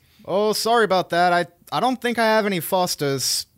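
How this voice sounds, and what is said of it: Put-on Australian accent. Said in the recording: “it's hard to say Foster's without the Australian accent”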